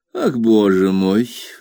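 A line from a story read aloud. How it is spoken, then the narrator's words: Sigh. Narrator (Russian): вздохнула мисс Мерстон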